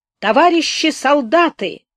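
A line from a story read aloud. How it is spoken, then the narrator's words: Strained hoarse shout. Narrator (Russian): снова крикнул надорванный голос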